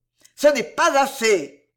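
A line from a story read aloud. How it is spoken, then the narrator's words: Rising to a roar. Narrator (French): Belgodère, sa voix avait fini par rugir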